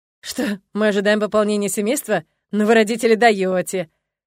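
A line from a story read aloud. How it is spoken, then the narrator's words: Chuckling. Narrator (Russian): хохотнул Фил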